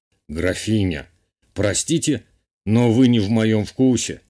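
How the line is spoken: Amused snort. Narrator (Russian): хмыкнул герцог

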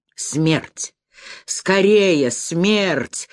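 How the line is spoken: Breathless exclamation. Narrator (Russian): воскликнул Паткуль задыхающимся голосом

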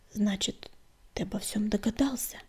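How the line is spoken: Quiet. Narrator (Russian): тихо сказала она

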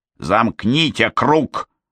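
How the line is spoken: Rough command. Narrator (Russian): грубо приказала она

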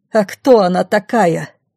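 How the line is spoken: Menacing question. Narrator (Russian): грозно спросила Пашина мама

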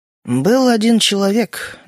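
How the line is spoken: Even, calm. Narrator (Russian): начал Эдвард ровно и спокойно

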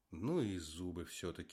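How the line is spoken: Sad sigh. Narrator (Russian): вздохнул он, с грустью

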